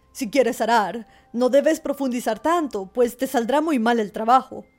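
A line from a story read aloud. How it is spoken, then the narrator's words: Farmer shouting. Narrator (Spanish): El labrador no pudo dejar de gritarle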